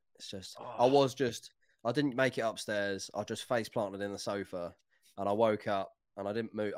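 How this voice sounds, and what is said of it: Voice sounds run-down and unwell. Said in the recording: “as you can probably hear in my voice, it's knocked me back a little bit ... I would be calling in sick”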